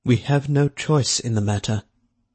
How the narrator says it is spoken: Pitsfield said quietly

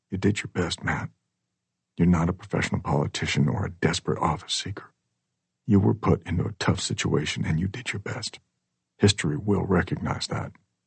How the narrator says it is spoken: she whispers

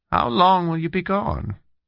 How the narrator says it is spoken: she asked wistfully

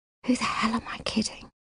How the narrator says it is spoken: she asks really quietly

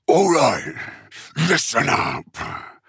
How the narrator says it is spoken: Uftak roared

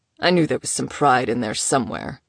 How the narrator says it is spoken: he grunted

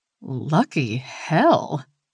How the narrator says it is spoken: she scoffed

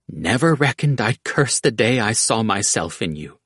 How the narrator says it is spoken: she said

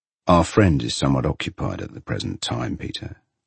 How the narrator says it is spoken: he says gravely

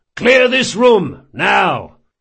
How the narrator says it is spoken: bellowed

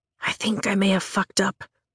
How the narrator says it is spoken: I whisper, apprehension growing with each step we take

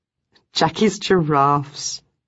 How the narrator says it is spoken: Ruth said with a laugh

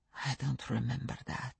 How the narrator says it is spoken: he said, his voice a bare whisper

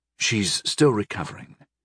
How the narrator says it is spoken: I quietly instructed Sister Bemia

